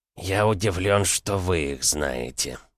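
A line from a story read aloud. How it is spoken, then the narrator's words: Gritted. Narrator (Russian): процедил Палин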